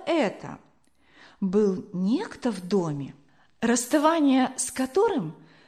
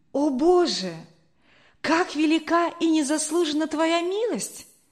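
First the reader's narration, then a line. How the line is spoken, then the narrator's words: Deeply moved exclamation. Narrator (Russian): воскликнул Генрих, глубоко тронутый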